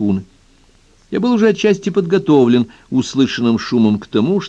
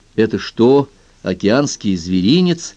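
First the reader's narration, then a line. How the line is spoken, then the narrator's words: Plain. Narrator (Russian): спросил я Монтгомери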